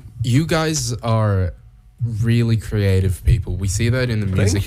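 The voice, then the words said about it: Put-on American accent. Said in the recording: “I will be speaking in an American accent for the rest of this ... I want to hear a normal accent.”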